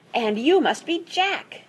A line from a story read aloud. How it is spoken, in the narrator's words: exclaimed